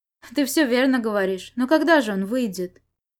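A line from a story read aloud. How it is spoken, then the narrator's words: Sad sigh. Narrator (Russian): Сюэ печально вздохнул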